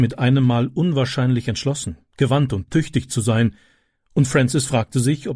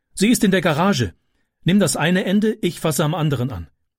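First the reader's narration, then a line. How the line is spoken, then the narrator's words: Called out. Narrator (German): rief sie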